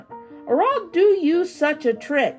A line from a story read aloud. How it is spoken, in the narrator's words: cried the old man